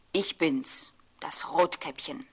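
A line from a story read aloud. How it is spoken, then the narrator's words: Plain, wolf's voice. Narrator (German): antwortete der Wolf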